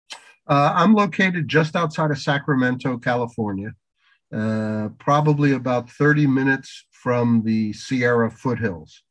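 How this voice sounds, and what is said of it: New Jersey accent, voice with a cold. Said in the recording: “I have a bit of a cold, so I apologize for the vocals ... I can never get rid of that New Jersey accent”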